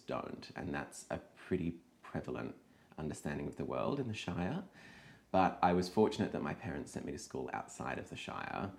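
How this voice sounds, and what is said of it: Posh Australian accent. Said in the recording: “As everyone can tell from my voice, I went to a posh school in the city.”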